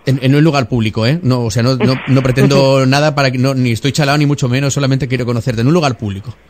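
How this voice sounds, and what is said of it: Radio announcer voice. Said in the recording (Spanish): “¿Sabes que tienes voz de locutor de radio?”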